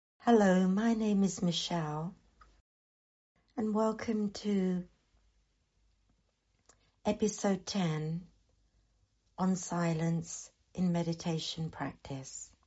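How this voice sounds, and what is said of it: Husky, deeper voice from sore throat. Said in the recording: “apologies for my sore throat. ... My voice sounds probably husky and deeper than usual.”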